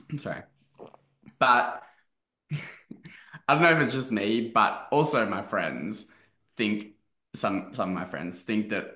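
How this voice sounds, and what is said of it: Australian accent. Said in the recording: “why do you speak with an Australian accent now to me? ... you have an Australian”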